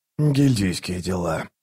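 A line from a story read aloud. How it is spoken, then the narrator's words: Muttered. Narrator (Russian): буркнул Раллик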